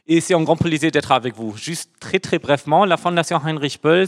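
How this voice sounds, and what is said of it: Slight German accent in French. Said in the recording (French): “j'ai aussi un petit accent. C'est dû au fait que moi, je suis aussi allemand.”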